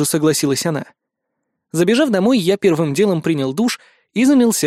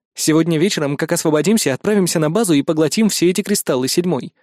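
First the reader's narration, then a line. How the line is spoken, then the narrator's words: Plain. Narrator (Russian): сказал я конструкту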